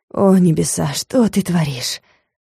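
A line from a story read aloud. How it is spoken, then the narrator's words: Breathless exhale. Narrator (Russian): выдохнул магистр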